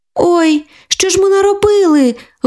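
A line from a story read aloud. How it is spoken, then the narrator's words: Tearful exclamation. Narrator (Ukrainian): вигукнула кирпатенька, а у зелених очках заблистіли слізки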